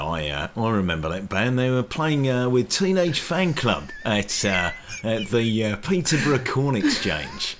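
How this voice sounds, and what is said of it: Imitates a radio broadcaster, throaty voice. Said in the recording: “That is spot on though. That is so good. I love you got the sound in the back of your throat. It was perfect ... as a broadcaster, he can go quite low, but he can actually go quite high as well ... my Steve Lamack impression”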